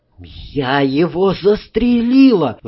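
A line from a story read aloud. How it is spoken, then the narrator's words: Faint, shocked voice. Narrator (Russian): обморочным голосом сказала Ленка Руть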